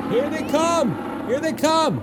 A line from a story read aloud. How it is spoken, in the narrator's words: they heard a few men shouting